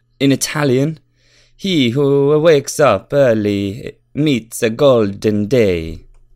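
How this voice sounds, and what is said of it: Put-on Italian accent. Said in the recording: “And that sounds Italian, like Japanese ... You sound Japanese ... good accent”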